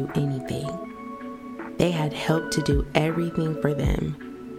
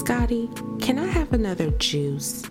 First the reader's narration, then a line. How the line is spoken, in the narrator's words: Busy asked sweetly